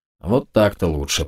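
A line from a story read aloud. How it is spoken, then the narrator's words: Grumble. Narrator (Russian): проворчал я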